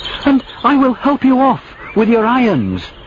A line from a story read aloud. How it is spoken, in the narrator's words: he cried